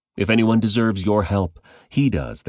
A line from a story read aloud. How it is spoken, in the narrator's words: they said